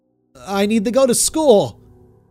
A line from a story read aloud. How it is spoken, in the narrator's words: I cried